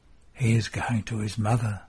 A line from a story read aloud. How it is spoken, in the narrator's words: whispers John